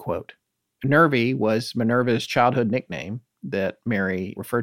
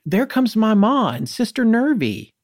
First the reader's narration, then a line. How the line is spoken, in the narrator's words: Rancy yelled